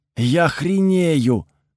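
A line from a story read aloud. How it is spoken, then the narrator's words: Breathless exclamation nearby. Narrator (Russian): выдохнул рядом Чез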